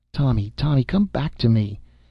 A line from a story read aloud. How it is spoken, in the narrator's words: she had cried out in her heart when that coldness came between them